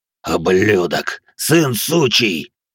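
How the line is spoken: Wounded roar. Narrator (Russian): рычал пронзенный повелитель ярости

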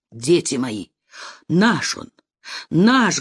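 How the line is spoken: Plain. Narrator (Russian): говорит он

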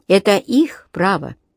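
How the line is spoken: Even-voiced repetition. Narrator (Russian): тем же ровным голосом повторил Солинский

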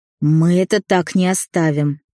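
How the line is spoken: Growled through clenched teeth. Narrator (Russian): прорычал сквозь сжатые зубы Демьян

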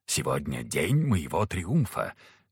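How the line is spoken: Casual whisper in ear. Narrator (Russian): как бы невзначай шепнул Якуб на ухо Ане

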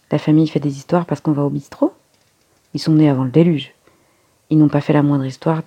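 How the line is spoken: Curt, dry. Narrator (French): dit sèchement Sarah

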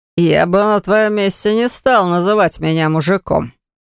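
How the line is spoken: Defeated, through gritted teeth. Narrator (Russian): процедил поверженный

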